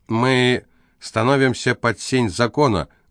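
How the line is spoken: Loud. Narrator (Russian): громко проговорила Фенелла

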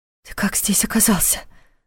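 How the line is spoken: Whispered question. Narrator (Russian): шепотом спросила Саша

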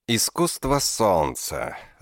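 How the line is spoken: Thoughtful drawl. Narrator (Russian): задумчиво протянул Паршурам

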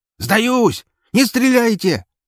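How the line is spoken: Frantic scream. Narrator (Russian): Истошно заорал Леха

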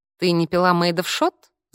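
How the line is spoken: Laughing. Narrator (Russian): засмеялся Альберто

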